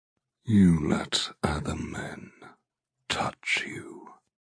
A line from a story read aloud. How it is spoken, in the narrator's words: he rasps